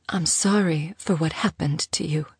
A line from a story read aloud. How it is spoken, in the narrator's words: Teek whispered, her voice cracking